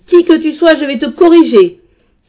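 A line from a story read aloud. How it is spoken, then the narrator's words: Wild roar. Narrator (French): Il poussa un rugissement sauvage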